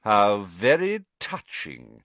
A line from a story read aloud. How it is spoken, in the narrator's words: sneered Snape